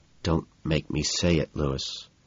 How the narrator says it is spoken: mutter under my breath

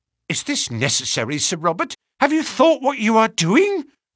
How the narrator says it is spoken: cried the woman

